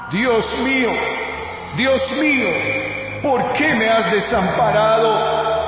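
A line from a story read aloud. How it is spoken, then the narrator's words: Crying out. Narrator (Spanish): Jesús grita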